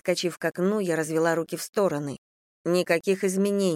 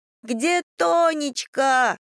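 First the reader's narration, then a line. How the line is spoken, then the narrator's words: Yelling. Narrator (Russian): орал Никита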